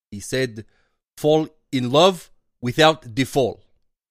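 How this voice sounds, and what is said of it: Slavoj Zizek voice impression. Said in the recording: “I will try to do his voice.”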